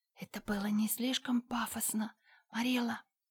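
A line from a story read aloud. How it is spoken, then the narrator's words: Whispered. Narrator (Russian): прошептала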